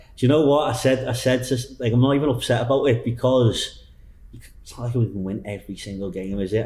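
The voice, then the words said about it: Broad Liverpool accent. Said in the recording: “the very broad accent that ... from Liverpool”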